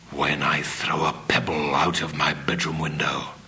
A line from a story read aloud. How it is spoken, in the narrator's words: he whispered under his breath